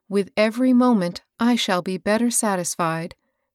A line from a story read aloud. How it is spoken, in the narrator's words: she said